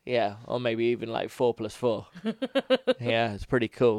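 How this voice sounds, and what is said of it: Usual voice. Nothing is said of it.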